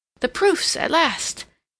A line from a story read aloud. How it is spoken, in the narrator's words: Seal with renewed hope in her eyes, and exclaiming